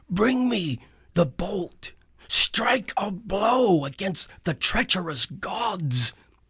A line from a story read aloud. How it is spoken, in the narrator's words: the spirits of the dead whispered around me